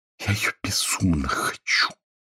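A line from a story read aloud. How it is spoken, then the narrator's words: Breathy whisper. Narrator (Russian): С придыханием прошептала Соня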